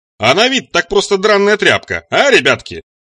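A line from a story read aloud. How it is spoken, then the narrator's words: Booming to crowd, grinning. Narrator (Russian): прогремел в публику Сатиран, ухмыляясь во весь рот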